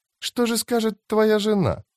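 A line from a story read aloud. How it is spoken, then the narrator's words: Cooing. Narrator (Russian): проворковала Фелисин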